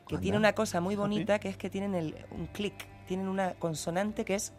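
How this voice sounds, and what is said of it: Canary Islands Spanish accent. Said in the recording (Spanish): “¿Te ha salido el acento canario? ... Sí, le salió el acento. ... le salió el acento canario”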